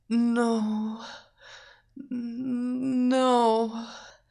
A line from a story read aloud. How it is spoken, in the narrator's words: whispered